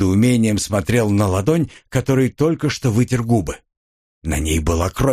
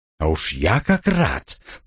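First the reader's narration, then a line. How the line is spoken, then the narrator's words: Hissing. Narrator (Russian): прошипел я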